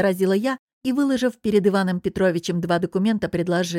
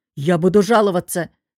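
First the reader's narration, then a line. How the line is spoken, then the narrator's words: Angry bark. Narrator (Russian): рявкнул работничек года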